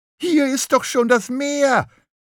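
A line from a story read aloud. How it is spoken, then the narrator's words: Calling out. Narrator (German): rief Lachmöwe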